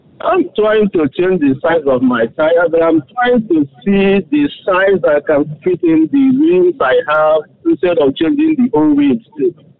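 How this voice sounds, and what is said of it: Speaks with a noticeable accent. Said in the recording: “I hope you understand my accent.”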